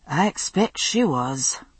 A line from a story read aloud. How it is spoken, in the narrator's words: said Jamie in a resigned tone